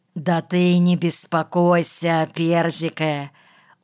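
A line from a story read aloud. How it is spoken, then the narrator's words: Soothing wheeze. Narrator (Russian): успокоительно засипел Клепс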